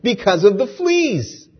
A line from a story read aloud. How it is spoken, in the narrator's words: Betsy could not keep the triumph from her voice as she exclaimed